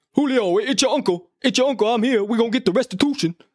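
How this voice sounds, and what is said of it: Imitates another person's voice. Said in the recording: “There's my best Shannon Sharpe impression.”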